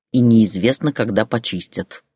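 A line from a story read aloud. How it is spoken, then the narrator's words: Grumbling. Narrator (Russian): проворчал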